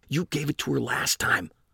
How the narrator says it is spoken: hissed through clenched teeth

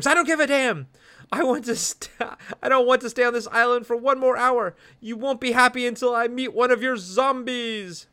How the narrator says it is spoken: She screams

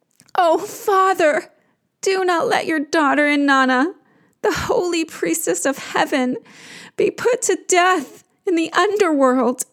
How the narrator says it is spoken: she cries to him

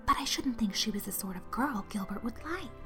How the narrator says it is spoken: whispered Jane to Anne

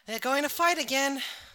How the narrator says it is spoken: sighed Palmon

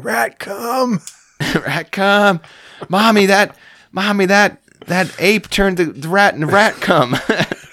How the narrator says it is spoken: a little kid yelling

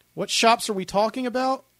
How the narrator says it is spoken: Lionel said, shouting over the cheers

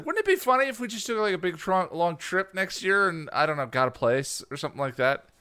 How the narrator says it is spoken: we both laughed and said

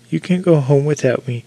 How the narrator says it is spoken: with a quiet laugh

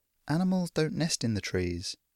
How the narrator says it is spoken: Trip muttered

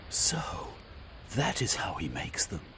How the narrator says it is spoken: Velveen breathed

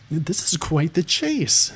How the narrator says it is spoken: Mezrin exclaimed

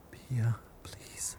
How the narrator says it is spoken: Bougie whispered

